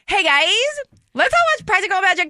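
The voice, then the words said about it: Light, fluffy, bubbly impression. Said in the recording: “her impression of me. It gets like light and fluffy and fun.”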